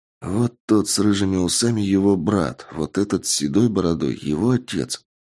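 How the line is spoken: Whisper. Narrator (Russian): шепнул мне Андрей

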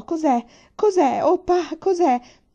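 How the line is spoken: Shouted. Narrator (Italian): Urlò

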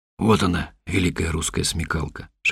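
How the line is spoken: Whisper. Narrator (Russian): шепнул Миша

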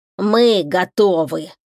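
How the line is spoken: Creaky voice. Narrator (Russian): проскрипел забор

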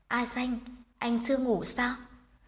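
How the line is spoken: Soft sleepy question. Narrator (Vietnamese): Bạch Phi Phi mở đôi mắt mơ ngủ, khẽ hỏi

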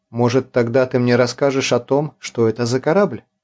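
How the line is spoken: Plain. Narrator (Russian): спросил Артур

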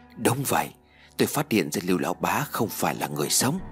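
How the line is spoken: Quiet voice. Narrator (Vietnamese): Lê Minh nhỏ giọng nói

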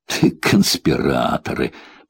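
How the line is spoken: Mumbled. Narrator (Russian): пробормотал я

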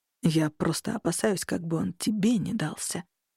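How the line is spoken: Quiet confession. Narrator (Russian): тихо признался Аверан

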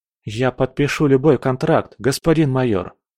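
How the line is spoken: Plain. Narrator (Russian): сказал он

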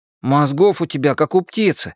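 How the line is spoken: Snapping retort. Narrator (Russian): огрызнулся Эдди

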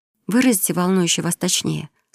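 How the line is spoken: Dry demand. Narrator (Russian): сухо потребовала она

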